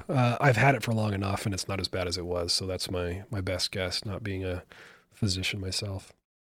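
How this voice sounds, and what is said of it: Voice affected by a cold. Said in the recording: “if you can tell in my voice, I'm on the tail end of a cold”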